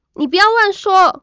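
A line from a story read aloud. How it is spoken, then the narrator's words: Nervous shout. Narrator (Chinese): 我紧张的朝男同学大喊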